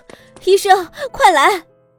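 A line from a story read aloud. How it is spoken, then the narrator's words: Panicked shout down hallway. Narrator (Chinese): 欧夫人的脸上闪过一丝惊慌失措…对着走廊喊道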